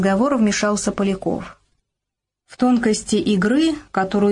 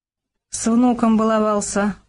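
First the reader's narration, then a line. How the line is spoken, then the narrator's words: Gruff mumble. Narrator (Russian): буркнул Бабий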